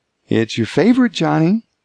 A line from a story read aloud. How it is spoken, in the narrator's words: said cheerfully